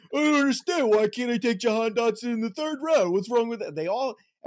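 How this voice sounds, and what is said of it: Mocking whiny fantasy-football-fan voice. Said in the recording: “an impression of what other fantasy football players sound like ... They all sound like that ... That's the sound of like going lowercase, uppercase”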